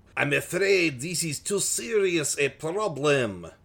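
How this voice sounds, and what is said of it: Put-on French accent. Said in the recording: “That's my French accent. ... I don't know if it's a delightful one, though.”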